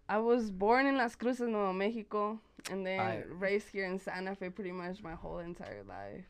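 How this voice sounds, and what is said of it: Spanish-influenced accent. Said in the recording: “with the Spanish accent, with the attitude”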